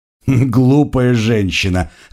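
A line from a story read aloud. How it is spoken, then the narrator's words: Laughing. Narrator (Russian): рассмеялся Манброн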